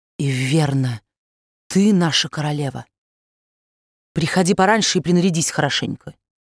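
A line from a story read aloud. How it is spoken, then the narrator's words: Exclaiming. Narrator (Russian): Дю Вальнобль воскликнула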